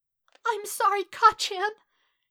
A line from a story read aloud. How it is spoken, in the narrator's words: He sobbed in a wretched breath, tears pouring down his face in putrid rivers